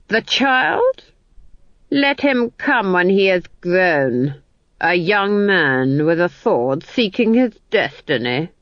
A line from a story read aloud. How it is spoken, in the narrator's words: the Duke sneered